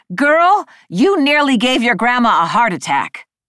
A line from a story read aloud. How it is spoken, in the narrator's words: shouting